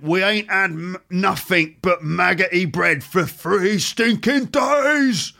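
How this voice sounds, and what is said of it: Working-class London Cockney accent. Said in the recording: “this is sort of London, working class London Cockney accent”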